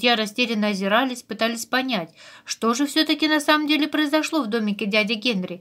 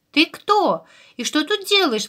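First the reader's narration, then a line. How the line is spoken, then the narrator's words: Exclamation. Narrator (Russian): воскликнул Ру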